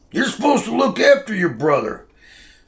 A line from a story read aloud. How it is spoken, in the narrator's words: Dad hollered at him